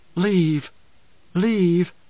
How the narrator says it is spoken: whispering

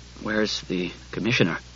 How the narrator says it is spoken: he mumbled, hot with mortification

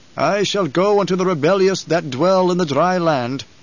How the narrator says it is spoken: Halleck intoned

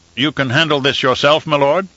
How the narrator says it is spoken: Leto laughed

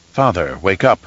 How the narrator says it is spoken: Leto Atreides whispered

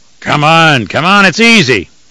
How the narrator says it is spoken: the heavyset attendant growled

